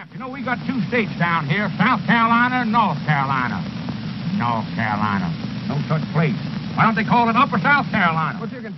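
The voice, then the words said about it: Comical Southern senator voice, Senator Claghorn. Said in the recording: “comical senators like you'd see on Bugs Bunny ... Foghorn Leghorn was based on a character named Senator Claghorn”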